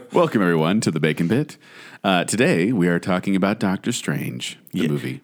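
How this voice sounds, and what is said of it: Smooth public-radio announcer voice. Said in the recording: “that NPR voice of yours”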